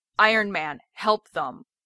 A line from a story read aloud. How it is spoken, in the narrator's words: Steve barks